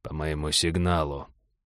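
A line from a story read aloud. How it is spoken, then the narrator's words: Quiet command. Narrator (Russian): негромко скомандовал Череп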